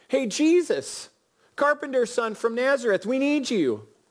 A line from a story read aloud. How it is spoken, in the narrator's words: So they shouted